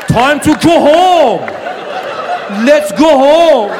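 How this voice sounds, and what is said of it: Thick Persian accent. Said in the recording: “he would call for me with his thick Persian accent.”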